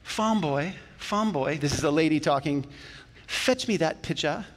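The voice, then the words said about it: Put-on accent, lady's voice. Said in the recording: “Did I get the accent right? ... That's my best. I don't even know what accent that is.”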